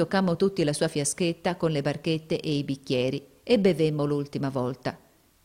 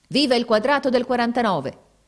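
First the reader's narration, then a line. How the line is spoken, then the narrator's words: Shouted. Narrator (Italian): gridò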